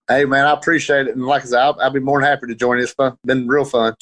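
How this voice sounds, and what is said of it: Central Georgia Southern twang. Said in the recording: “that Georgia accent ... I absolutely love the Georgia accent ... It's this uh, Central Georgia twang”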